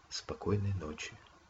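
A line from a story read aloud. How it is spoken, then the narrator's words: Whisper. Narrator (Russian): прошептала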